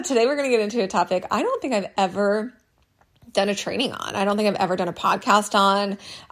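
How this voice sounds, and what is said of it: Slightly hoarse, froggy voice. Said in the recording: “I sound a little froggy ... allergy season is just not ending ... maybe that's why we sound like this today ... it's like my sexy voice”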